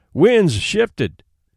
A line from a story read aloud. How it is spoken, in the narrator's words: cried Hank vigorously